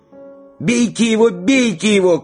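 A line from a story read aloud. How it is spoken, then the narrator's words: Shout. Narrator (Russian): крикнул Егорушка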